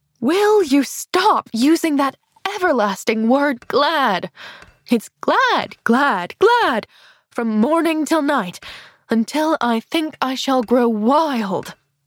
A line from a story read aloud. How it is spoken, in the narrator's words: she cried sharply